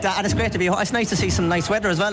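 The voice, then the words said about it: Northside Dublin Irish accent. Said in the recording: “He hasn't lost that Northside accent in the slightest.”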